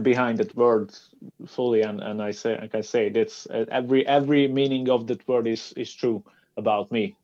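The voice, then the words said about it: Foreign accent speaking English. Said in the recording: “I'm really, really sorry about the Australian accent ... they told me that I have an accent like Arnold Schwarzenegger”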